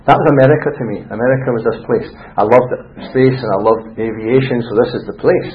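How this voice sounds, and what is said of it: Scottish accent. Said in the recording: “Love your accent, sir. Where are you from?" And I said, "Scotland."”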